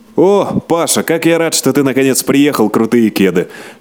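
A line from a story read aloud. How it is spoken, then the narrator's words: Loud and joyful. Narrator (Russian): Шумно и радостно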